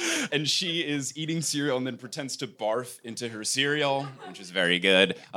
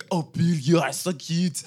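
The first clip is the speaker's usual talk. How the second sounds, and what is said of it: Impression of Fleur Delacour. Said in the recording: “It's a pretty good Fleur impression.”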